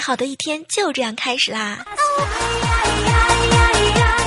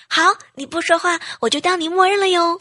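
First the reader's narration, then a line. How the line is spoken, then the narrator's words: Loud shout. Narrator (Chinese): 我都会大喊一声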